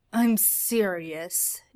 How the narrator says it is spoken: Dean snapped right before he gagged again

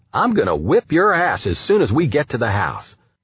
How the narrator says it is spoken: I yelled

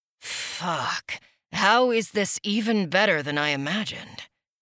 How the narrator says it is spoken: He murmured

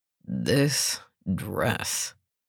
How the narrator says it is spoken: growled

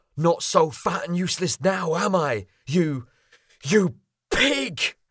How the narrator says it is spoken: yelled

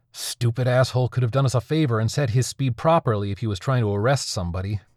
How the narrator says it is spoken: Brody says through clenched teeth

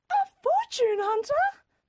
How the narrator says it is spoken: Mother screamed

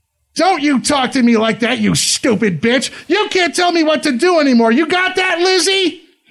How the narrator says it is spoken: screams

